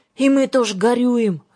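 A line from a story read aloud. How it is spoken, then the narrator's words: Sighing addition. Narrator (Russian): вздохнул, добавила Юлька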